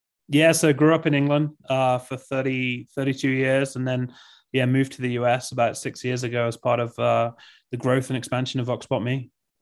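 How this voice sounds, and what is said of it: English accent. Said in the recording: “has this amazing accent. ... You can tell by the accent”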